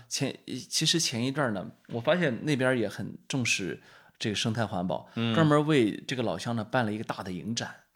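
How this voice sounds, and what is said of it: Heavy Shandong accent. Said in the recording (Chinese): “他的山东口音呢比我可重多了 ... 我这口音本来就够重的啊”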